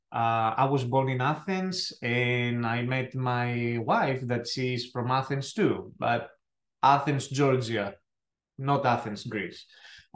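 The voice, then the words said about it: Thick Greek accent. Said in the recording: “who is this guy with a thick accent ... as I said from Greece”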